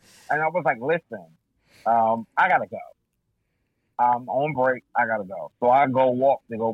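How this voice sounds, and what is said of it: Usual voice. Nothing is said of it.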